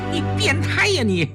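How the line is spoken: Wild laughter. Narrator (Chinese): 江世飞忽然狂笑起来，哈哈哈哈哈哈

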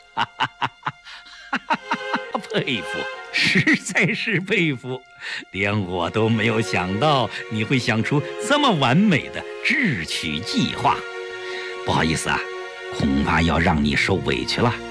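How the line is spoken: Laughing heartily. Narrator (Chinese): 不等齐长鹏说完，郭沫若就哈哈大笑起来

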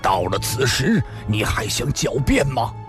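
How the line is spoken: Angry shout. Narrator (Chinese): 西湖大师怒喝一声

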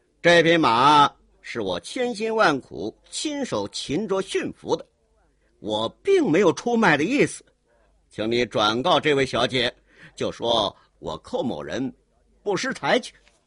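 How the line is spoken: Cold laugh. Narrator (Chinese): 寇英杰冷冷一笑

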